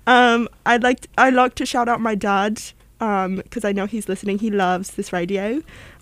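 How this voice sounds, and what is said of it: Put-on British accent. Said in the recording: “we're speaking in a British accent just to change things up”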